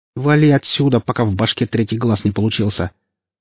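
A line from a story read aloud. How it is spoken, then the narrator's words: Angry growl. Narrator (Russian): начиная злиться, рыкнула Оля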